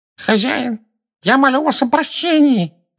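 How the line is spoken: Nasal pleading. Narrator (Russian): прогнусавил человек, стоящий на коленях

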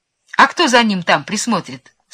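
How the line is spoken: Plain. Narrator (Russian): спросил Чиполлино

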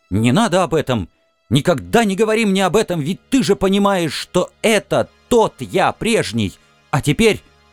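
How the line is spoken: Shout. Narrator (Russian): я крикнул

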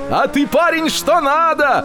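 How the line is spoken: Shout. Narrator (Russian): прокричал спекулянти

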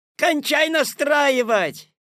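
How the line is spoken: Shout from audience hall. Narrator (Russian): крикнули из зала

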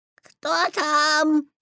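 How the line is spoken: Imitating grandmother's voice. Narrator (Russian): спросил Петя, стараясь говорить бабушкиным голосом

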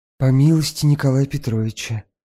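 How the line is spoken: Whisper. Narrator (Russian): шепнула Фенечка

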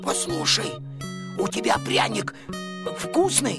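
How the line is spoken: Hoarse wheeze. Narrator (Russian): Костя прохрипел

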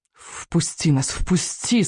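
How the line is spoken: Moaning wind. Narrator (Russian): стонал ветер

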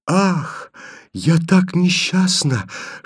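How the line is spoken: Barely audible whisper. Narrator (Russian): шепчет ему еле слышно Таня

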